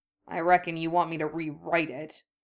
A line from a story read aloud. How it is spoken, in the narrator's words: Harry muttered